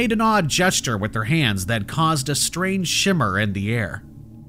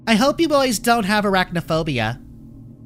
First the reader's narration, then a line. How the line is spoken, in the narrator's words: gave another laugh and said in a mocking tone